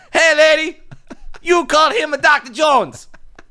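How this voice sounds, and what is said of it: Poor put-on Chinese child accent. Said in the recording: “That was the worst small Chinese accent ever.”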